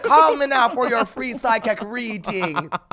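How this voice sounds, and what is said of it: Poor Jamaican accent, sounds Irish. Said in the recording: “Jamaican ... No, it was a little bit Irish ... it was horrible”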